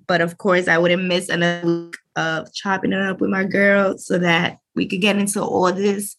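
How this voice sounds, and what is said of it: Unwell, unusual-sounding voice. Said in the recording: “I'm a little under the weather and my voice is sounding crazy”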